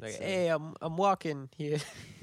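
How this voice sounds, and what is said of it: Put-on Boston American accent. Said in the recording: “It's Boston. ... Boston. ... Yeah, it's fantastic.”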